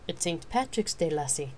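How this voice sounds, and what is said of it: Lilting put-on Irish accent. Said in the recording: “she announced in a hilting Irish accent.”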